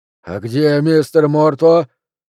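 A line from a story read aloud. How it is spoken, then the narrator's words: Husky drawling shout. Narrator (Russian): с хрипотцой закричал, растягивая слова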